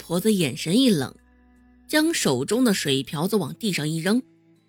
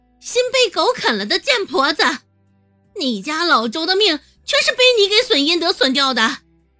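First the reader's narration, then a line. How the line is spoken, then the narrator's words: Shouting abuse. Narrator (Chinese): 曾婆子叫骂道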